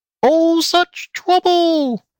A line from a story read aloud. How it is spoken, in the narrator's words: squealed the pig lady